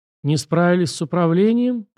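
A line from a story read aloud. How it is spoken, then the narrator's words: Mocking old man. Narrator (Russian): поморщился насмешливо старик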